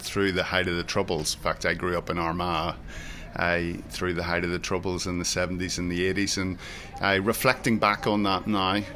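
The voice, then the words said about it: Northern Irish accent. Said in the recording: “you can probably tell from my accent that I'm not from this part of the world. So I had the pleasure of growing up in Northern Ireland”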